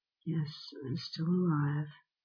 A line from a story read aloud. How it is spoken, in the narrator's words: answered feebly